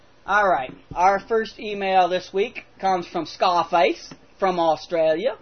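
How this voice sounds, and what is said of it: Usual voice. Nothing is said of it.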